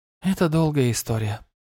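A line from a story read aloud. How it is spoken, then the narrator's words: Sigh. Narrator (Russian): вздохнула Рангрид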